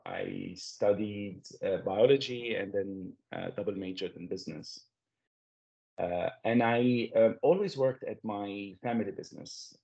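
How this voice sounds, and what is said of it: Lebanese-accented English. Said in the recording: “as you can notice from my accent, I come from Lebanon”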